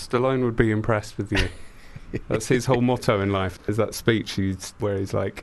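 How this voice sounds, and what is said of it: Usual voice. Nothing is said of it.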